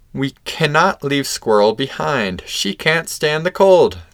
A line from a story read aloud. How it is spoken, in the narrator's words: said Ferret